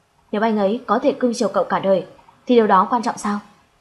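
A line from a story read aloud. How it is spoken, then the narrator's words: Angry. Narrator (Vietnamese): Vì trừng mắt tức giận nói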